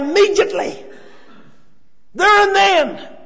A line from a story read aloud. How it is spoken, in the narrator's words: he cried out